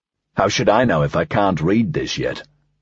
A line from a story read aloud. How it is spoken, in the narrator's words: Dreyfus snapped